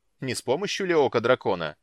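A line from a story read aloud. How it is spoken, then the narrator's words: Sharp question. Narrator (Russian): резко спросил он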